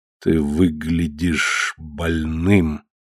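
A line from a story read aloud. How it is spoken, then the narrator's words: Slow, measured. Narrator (Russian): медленно проговорил фараон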